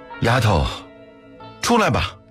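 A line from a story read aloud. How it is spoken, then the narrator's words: Shouted to a crowd. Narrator (Chinese): 刘不周朝着人群喊了一声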